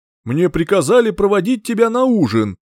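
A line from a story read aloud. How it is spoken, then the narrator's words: Booming voice, heavy old woman. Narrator (Russian): зычным голосом сообщила грузная седая женщина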